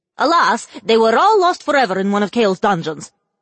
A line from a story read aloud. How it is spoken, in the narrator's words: the witch quickly blurted out